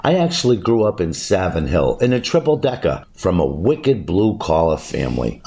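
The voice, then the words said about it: Boston accent. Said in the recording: “It's where the Boston accent originated... my accent is legit”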